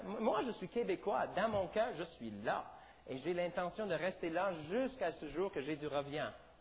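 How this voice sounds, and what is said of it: Non-native French accent. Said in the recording (French): “je ne suis pas né au Québec... quand j'ouvre ma bouche, les gens souvent vont poser la question, d'où est-ce que tu viens?... Je parle avec un accent... j'ai un accent”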